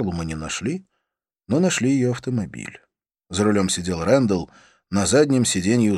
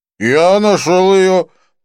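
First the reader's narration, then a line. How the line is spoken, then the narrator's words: Drunken voice. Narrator (Russian): проговорил нетрезвым голосом Винсон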